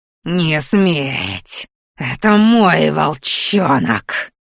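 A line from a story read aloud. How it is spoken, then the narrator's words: Hiss turning into growl. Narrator (Russian): Под конец шипение превратилось в рычание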